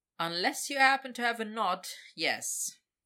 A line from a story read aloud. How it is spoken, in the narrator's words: Victor said dryly